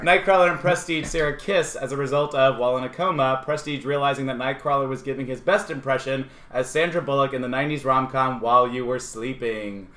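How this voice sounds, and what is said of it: Over-the-top game show announcer delivery. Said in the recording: “The way you said that was fucking terrible. ... It sounded like a game show. ... Win a brand new car.”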